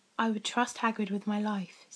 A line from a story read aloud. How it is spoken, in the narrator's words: said Dumbledore